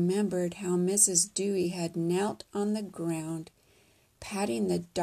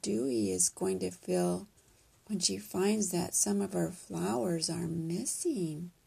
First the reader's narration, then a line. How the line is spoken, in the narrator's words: Mommy asked softly